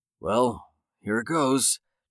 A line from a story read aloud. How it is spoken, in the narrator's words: Jake said under his breath